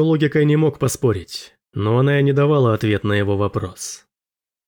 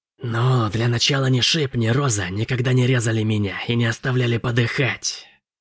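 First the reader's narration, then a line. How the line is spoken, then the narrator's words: Quiet furious hiss. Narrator (Russian): прошипела Генри тихим от ярости голосом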